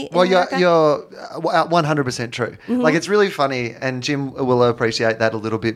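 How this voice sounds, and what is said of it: Australian accent. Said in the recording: “it's funny that you have the accent”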